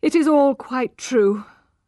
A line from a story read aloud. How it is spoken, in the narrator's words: cried Angel, hopelessly